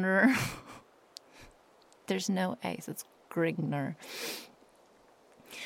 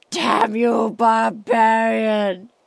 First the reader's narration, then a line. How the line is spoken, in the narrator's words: shrieked the soldier as he observed his comrade in death